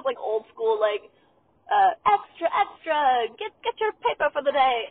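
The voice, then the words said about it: Bad old-timey newsboy accent. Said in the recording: “Oh my god, that accent was so bad.”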